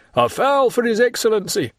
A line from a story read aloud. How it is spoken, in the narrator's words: Peppino, turning round, shouted